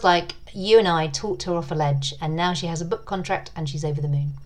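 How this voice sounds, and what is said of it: Silky English accent. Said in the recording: “your silky accent ... English accents”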